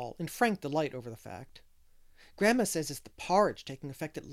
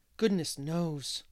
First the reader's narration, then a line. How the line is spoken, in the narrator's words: Paul sighed deeply